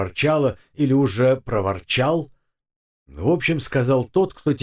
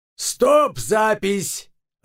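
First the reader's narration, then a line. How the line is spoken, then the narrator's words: Yell. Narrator (Russian): заорал режиссер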